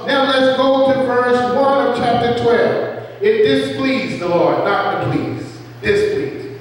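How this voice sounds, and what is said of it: Southern American accent. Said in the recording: “my southern accent come out”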